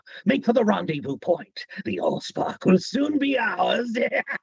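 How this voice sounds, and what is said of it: Light British accent, villain character voice. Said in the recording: “we just want a light British accent ... This is what Starscream sounds like”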